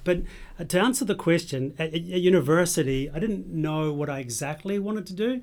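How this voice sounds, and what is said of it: Mixed New Zealand, Scottish, Australian accent. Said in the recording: “I'm from New Zealand, and I've Scottish ... accent may be giving it away ... I've been in Australia for 20 years, so my accent is kind of messed up”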